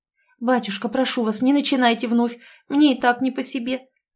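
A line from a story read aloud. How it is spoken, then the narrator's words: Quiet timid babble. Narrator (Russian): пролепетала тихо Ольга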